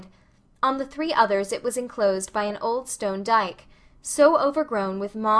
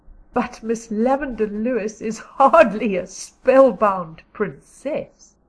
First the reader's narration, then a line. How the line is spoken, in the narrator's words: laughed Diana